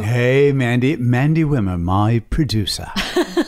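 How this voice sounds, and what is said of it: Bad put-on British accent. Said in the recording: “inserting the British accent ... Gratuitous and not good.”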